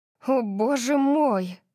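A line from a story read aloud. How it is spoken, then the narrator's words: Stunned, breathless gasp. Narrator (Russian): Выдохнула я, совершенно ошеломленная жестокостью, разыгравшейся передо мной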